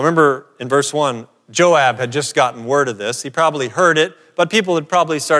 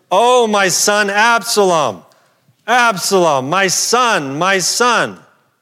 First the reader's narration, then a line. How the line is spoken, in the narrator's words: the king cried out with a loud voice